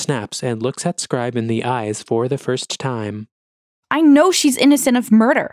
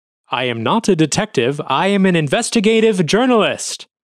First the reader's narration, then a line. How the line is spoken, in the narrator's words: Scribe shouts